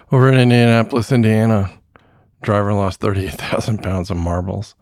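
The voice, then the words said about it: Voice giving out, hoarse. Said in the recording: “losing my voice again”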